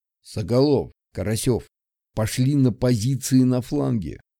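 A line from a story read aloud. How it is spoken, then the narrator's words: Quiet command. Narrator (Russian): скомандовал капитан тихим голосом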